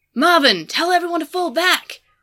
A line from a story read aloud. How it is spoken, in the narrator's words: Tartarus yelled into the voice chat